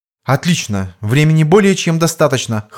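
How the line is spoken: Cool, confident. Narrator (Russian): хладнокровно и уверенным тоном произнесла Ирина

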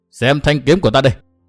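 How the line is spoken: Shouting. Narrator (Vietnamese): Nguyên Bình hét

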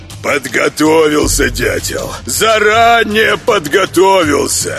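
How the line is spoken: Offended roar. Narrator (Russian): обиженно взревел голодный

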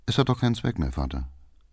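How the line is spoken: Quiet. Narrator (German): sagte Erich leise

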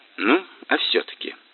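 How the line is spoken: Gentle question. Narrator (Russian): мягко спросил Бортко

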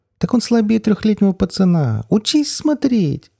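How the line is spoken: Deafening shriek. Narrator (Russian): Голос взвизгнул так, что у меня заложило уши

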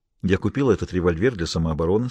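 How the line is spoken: Calm. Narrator (Russian): сказала она спокойно

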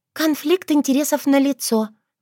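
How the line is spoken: Sighing. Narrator (Russian): вздохнула Норуш

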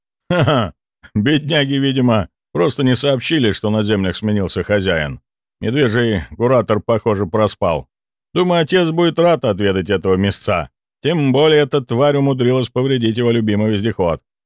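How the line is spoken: Chuckling. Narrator (Russian): хохотнул Кэмпбелл

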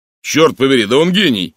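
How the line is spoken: Approving exclamation. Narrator (Russian): одобрительно воскликнул Инглс

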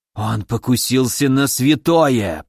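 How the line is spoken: Hoarse wheeze. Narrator (Russian): просипел князь

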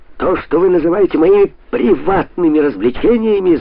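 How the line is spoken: Yelling. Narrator (Russian): завопил он

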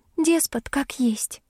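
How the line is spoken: Girl's heavy sigh. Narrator (Russian): тяжело вздохнула девушка

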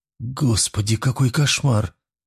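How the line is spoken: Breathless, muffled by hands. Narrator (Russian): выдохнула Вероника, пряча лицо в ладонях

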